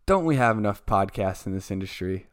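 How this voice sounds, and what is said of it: Sarcastic tone. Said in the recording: “I say it sarcastically.”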